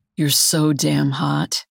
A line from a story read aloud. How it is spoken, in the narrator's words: he mutters